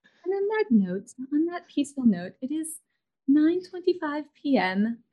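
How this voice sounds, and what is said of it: Soothing put-on British accent. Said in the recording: “I don't know why I started turning into a British accent. That's what I think of when I think of soothing.”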